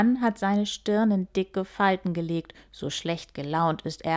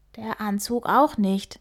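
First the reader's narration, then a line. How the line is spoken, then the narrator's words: Whispering back. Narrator (German): flüstert Antonio zurück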